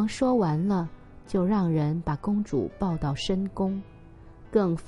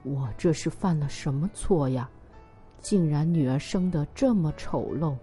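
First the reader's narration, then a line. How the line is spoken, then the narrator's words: King, shocked, ashamed lament. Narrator (Chinese): 国王既惊讶又觉得羞耻，他连连的悲叹说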